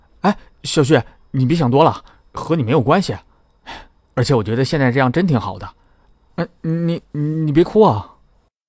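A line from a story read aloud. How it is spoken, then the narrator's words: Anxious, hurried. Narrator (Chinese): 他很急，边说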